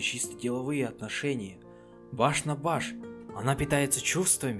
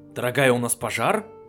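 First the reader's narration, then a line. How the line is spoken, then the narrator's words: Loud call from corridor. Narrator (Russian): громко спросил жеребец из коридора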